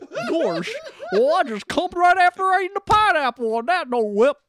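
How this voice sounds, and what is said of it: Imitates another person's voice. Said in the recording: “doing an Owen Wilson impression?”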